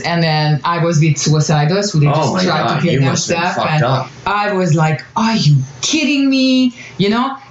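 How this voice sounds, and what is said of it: Speaker's own foreign accent. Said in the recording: “Sorry, that's my accent. It's very hard for me to say that word.”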